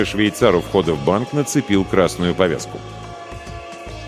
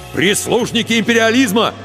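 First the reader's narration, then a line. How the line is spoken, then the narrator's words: Angry shout. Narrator (Russian): гневно выкрикнул Егор в сторону полицейских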